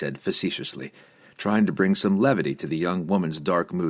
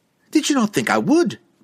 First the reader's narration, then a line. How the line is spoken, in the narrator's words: Catterby snapped at him, suddenly defensive, her tone as sharp as the edges of Drizzt's magical scimitars